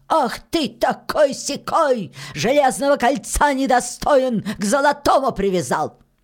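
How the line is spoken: Loud old witch shouting. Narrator (Russian): Закричала баба-яга громким голосом

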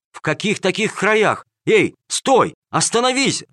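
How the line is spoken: Shouting. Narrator (Russian): закричал Бананита

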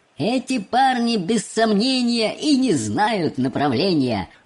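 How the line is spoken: Shouting with thunderous laughter. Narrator (Russian): закричал мистер Уонка, разразившись громовым хохотом

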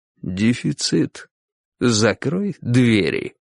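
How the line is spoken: Quiet. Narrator (Russian): тихо говорил

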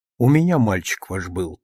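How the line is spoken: Quiet. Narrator (Russian): тихо сказала она

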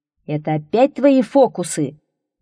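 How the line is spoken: Thunderous shout. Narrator (Russian): закричал он громовым голосом

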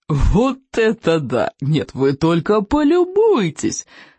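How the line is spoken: Exclaiming after hearty laughter. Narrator (Russian): воскликнул он, всласть нахохотавшись

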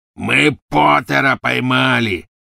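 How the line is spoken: Triumphant roar. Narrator (Russian): победно проревел Сивый

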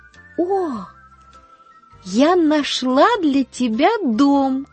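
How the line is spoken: Joyful exclamation. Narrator (Russian): воскликнула она радостно

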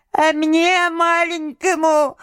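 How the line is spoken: Thin little voice. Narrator (Russian): заговорил он снова тоненьким голоском

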